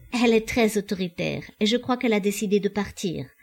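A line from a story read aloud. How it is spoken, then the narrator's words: Girl laughing evasively. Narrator (French): dit en riant la jeune fille pour noyer le poisson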